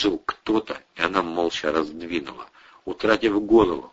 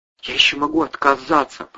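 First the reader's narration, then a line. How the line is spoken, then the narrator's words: Uncertain faint inner voice. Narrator (Russian): прозвучало в голове, неуверенно и едва слышно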